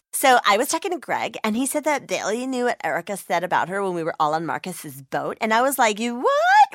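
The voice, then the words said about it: Reality TV star voice. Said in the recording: “my impression of a reality TV star”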